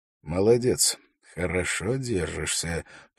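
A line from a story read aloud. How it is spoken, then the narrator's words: Quiet speech. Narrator (Russian): произнес он тихо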